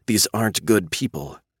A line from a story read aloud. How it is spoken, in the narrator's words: Cassie whispers